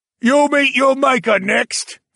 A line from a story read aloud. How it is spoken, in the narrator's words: someone shouted